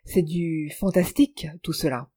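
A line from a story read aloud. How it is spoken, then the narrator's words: Murmuring. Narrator (French): murmura Miss Alicia Clary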